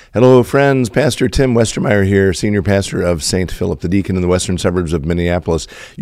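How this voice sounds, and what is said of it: Slightly crackly, strained voice. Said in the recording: “even with a slightly crackly voice ... You will forgive my voice today ... I'm struggling a little bit to power through speaking”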